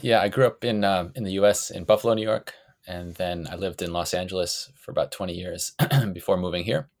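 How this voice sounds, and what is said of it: Non-New Zealand accent. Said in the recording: “from the accent, clearly you're not from New Zealand originally”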